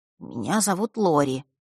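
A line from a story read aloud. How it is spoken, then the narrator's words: Quiet. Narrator (Russian): тихо представился он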